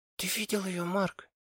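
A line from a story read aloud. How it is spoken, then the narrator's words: Awed whisper. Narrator (Russian): прошептала Софи, не в силах скрыть восхищение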